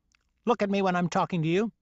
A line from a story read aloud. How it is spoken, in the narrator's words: she snapped